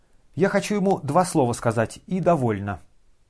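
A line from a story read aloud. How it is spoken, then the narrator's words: Quick, curt. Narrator (Russian): быстро отрезала генеральша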